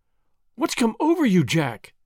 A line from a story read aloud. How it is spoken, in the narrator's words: cried